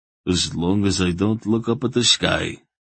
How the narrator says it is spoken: Relg answered tightly

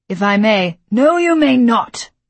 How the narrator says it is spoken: my father snapped

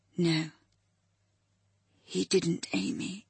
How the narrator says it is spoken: he said gently

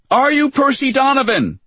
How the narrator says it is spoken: she shouted, plenty loud for Percy to hear her

